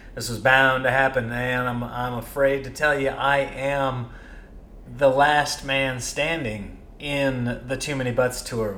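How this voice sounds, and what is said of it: Slightly sick, congested voice. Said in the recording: “if you can hear that in my voice, sorry... I'm getting a little sick. I've got a tickle in the back of my throat, some congestion”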